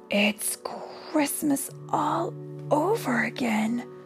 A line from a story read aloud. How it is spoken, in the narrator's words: the woman whispered